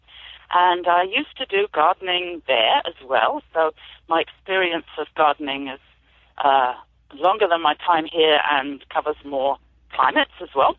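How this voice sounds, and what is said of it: British accent. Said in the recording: “I'm an immigrant farmer, as you might be able to tell from my accent. I've moved here about 27 years ago from the UK.”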